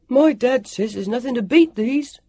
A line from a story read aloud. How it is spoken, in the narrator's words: called out